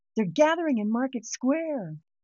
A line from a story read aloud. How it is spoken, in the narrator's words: someone a few streets over yell